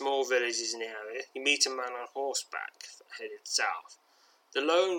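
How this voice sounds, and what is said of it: Usual voice. Nothing is said of it.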